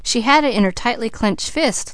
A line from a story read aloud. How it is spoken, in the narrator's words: laughed Douglas